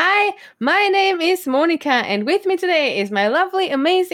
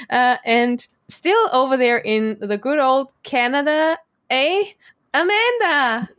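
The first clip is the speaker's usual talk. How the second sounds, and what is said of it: Weak attempt at Canadian accent. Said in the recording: “I tried with my accent; it wasn't very good... it was quite pathetic as well, but I tried.”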